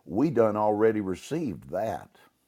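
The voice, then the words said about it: Put-on Southern accent. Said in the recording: “I'm gonna use a Southern accent here”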